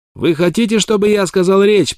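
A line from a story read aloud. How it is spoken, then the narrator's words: Inhuman shout. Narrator (Russian): прокричал он нечеловеческим голосом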